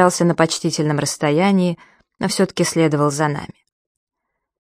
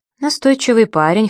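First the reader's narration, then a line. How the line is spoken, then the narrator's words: Wry snort. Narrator (Russian): хмыкнул Сергей Львович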